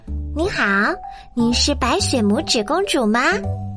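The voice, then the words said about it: Tiny, very small voice. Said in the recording (Chinese): “用很细小的声音说”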